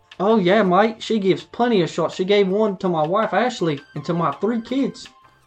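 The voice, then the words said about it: Put-on Australian accent. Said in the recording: “doing two different accents ... it was very hard for me to keep staying in an Australian accent”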